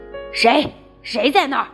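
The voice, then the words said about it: Frightening, menacing voice. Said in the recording (Chinese): “用很可怕的声音说”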